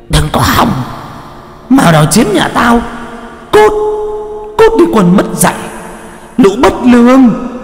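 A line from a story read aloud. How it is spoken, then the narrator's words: Old woman screaming. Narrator (Vietnamese): Bà già thì cứ gào lên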